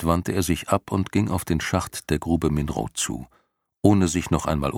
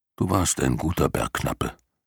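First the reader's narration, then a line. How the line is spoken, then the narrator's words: Murmured low. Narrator (German): raunte Jor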